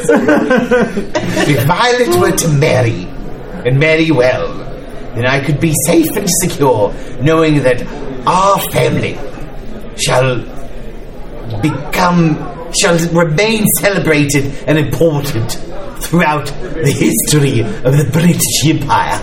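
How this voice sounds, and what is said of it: Put-on accent. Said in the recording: “I just wanted to hear that accent more.”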